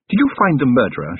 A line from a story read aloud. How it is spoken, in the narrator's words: she said, anxiously